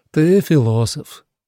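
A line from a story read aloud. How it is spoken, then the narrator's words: Sighing. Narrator (Russian): вздохнул Отто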